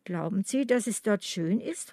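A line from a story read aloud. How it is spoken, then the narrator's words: Plain. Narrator (German): fragte Agnes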